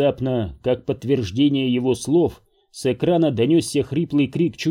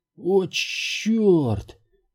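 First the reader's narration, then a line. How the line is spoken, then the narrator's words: Hoarse. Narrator (Russian): прохрипела Рипли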